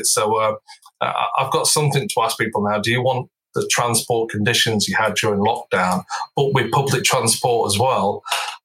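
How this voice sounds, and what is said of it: Non-London regional accent. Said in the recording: “I detect from your accent that probably London isn't your place of initial origin”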